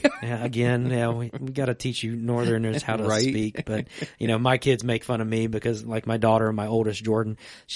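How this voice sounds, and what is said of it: Southern Virginia accent. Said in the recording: “I get that Virginia accent on things ... you say tagger ... Like, tagger. Like Tiger Woods ... July ... She's got the Southern accent.”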